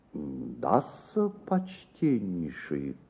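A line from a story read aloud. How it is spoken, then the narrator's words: Pensive muttering. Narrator (Russian): пробормотал мировой в раздумье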